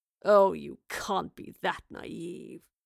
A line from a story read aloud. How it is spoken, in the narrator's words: groaned in boredom